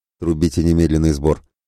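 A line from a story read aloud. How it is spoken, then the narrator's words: Curt, clipped. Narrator (Russian): отрывисто бросил Святослав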